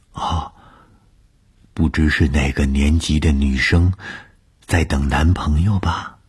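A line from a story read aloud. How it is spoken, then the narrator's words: Whispering. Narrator (Chinese): 她凑在我的耳边低声地说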